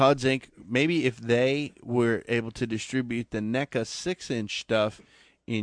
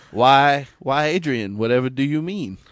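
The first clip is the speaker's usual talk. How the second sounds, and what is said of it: Put-on accent, well done. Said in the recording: “Ooh, well, good accent.”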